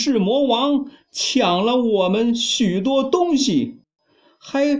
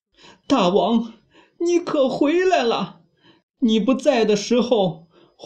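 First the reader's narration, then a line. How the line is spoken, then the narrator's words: Crying monkeys complaining. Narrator (Chinese): 大大小小的猴子 哭诉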